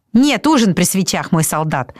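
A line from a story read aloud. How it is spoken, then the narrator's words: Snapping back. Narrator (Russian): огрызнулся Табаки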